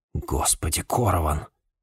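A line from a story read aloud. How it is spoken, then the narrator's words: Muttered. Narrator (Russian): пробормотал Джеймс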